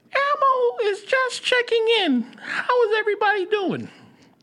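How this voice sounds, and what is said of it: High-pitched Elmo puppet voice. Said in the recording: “do an Elmo voice ... Elmo voice ... that was really good. That was good.”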